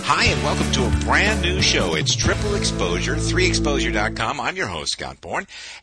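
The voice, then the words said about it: Polished radio announcer voice. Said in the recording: “You've got such a great radio voice.”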